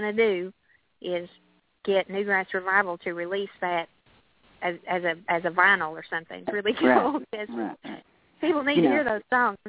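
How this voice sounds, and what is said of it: Southern American accent. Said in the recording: “chat with somebody with a Southern accent ... they tease me in Boston and even in Nashville”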